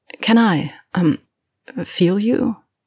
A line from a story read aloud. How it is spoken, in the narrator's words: She swallows thickly